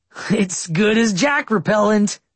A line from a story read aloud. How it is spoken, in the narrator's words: Austin said cheerfully